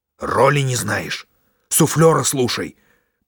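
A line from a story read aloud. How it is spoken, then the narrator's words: Hissing. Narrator (Russian): прошипел трагик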